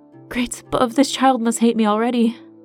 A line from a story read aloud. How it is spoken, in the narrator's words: she gasped between her short contractions